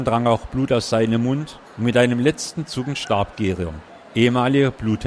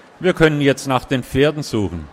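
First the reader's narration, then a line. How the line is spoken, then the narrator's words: Said calmly. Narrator (German): sagte ruhig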